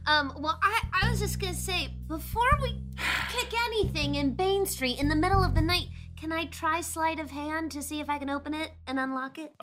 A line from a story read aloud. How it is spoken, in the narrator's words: Lorzach chirps